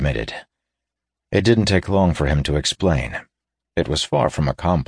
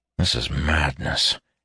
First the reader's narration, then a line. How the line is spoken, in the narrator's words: he muttered